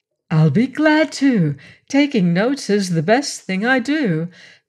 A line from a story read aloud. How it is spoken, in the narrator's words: Margaret cried